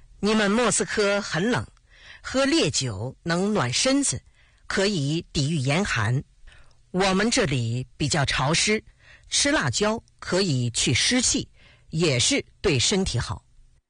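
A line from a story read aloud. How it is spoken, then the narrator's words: Smiling. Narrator (Chinese): 毛泽东笑着说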